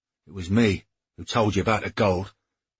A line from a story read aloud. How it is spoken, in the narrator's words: Cade said hastily